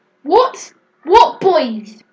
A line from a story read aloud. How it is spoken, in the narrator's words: shouted Mum